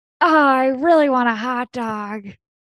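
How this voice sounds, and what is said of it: Jennifer Coolidge impression. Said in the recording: “a good impression ... Maybe Jennifer Coolidge ... Miss Coolidge, is that you?”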